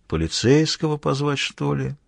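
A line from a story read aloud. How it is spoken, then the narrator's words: Quiet thoughtful question. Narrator (Russian): негромко, задумчиво вопросил Мазур в пространство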